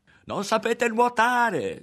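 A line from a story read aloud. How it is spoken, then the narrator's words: Shouting. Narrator (Italian): gridava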